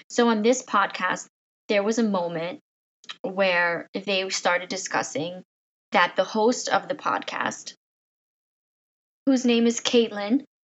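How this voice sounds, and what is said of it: Strained voice, losing her voice. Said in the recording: “excuse my voice. I'm forever losing my voice.”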